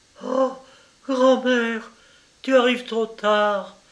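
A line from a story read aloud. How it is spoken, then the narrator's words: Child crying out, tearful. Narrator (French): s'écria la pauvre enfant en fondant en larmes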